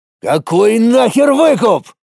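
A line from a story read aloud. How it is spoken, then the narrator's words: Yell. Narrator (Russian): Заорал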